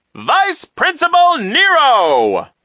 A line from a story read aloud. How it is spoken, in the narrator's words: the man announced in a loud voice